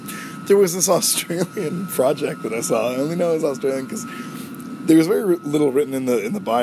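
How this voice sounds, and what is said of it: Usual voice. Nothing is said of it.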